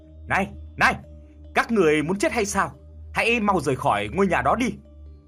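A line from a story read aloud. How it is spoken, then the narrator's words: Old man shouting. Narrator (Vietnamese): Ông lão hét lên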